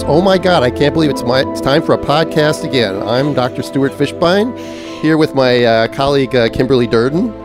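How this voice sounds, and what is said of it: Minnesota accent. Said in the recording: “I was listening to you do your intro and I was hearing your accent ... I can hear the Minnesota accent coming out.”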